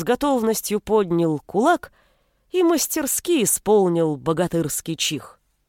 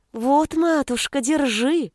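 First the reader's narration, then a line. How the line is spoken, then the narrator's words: Tender cooing. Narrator (Russian): Ласково проворковал он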